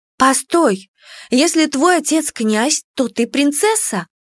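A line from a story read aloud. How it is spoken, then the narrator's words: Surprised exclamation. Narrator (Russian): удивленно воскликнула я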